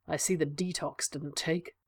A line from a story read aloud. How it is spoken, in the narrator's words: Sherlock muttered